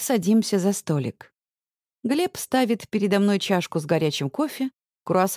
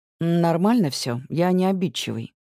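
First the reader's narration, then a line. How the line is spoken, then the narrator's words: Calm reply. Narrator (Russian): спокойно отвечает он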